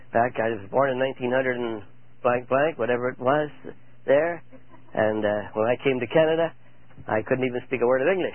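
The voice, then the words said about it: Strange European-sounding accent. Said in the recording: “if I have a strange accent, that's because I came from Europe ... oh, I could tell you were Polish by your accent”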